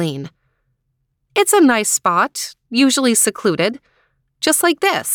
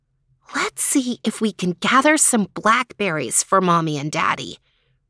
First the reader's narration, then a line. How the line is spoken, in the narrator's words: whispered Eileen to Logan